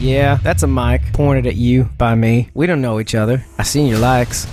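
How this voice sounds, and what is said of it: Deliberately bad put-on accent. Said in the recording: “that's me holstering my terrible accent”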